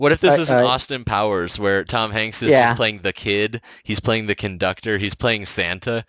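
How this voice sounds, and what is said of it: Usual voice. Nothing is said of it.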